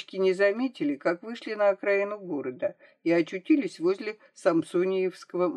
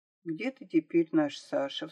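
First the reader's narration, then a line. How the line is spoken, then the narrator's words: Sighing. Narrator (Russian): вздохнула Марийка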